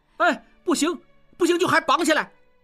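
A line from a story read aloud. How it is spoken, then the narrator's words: Shouting. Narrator (Chinese): 小栓也喊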